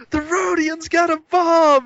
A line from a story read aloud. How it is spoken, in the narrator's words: He's going to shout